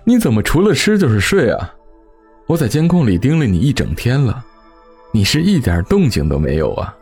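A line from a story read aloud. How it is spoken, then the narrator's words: Wry laugh. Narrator (Chinese): 我苦笑着笑道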